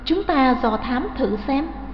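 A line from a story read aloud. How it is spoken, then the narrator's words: Soft whisper. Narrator (Vietnamese): Nàng bảo khẽ Ngũ Phương Kiếm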